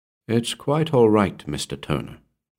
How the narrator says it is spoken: said the hotelier

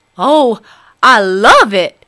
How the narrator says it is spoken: exclaimed the fox

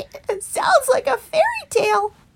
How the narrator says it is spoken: laughed Stickle

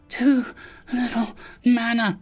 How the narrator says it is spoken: the fairy wheezed

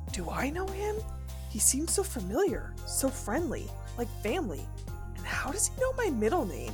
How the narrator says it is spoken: She said that last bit softly, as if to herself

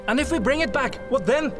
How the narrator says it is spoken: Faderhell asked, raising his voice in a most uncharacteristic way

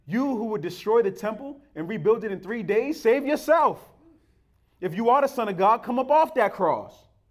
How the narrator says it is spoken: mocking him

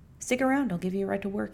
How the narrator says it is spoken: said

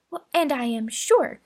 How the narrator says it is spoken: cried Mary warmly

